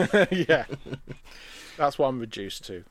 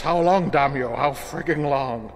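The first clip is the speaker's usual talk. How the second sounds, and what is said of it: Impression of a cartoon character's voice. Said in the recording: “do a Futurama Nixon impression”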